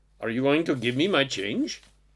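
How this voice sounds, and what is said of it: Indian-accented Dalai Lama impression. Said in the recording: “that's kind of an Indian accent, not a Tibetan one, but hey, I did my best.”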